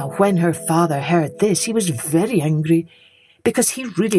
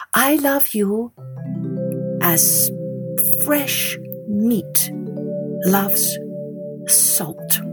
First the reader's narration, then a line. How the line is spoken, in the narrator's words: she said slowly